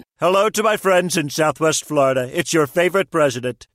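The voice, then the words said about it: Celebrity president voice impersonation. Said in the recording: “Celebrity voice impersonation.”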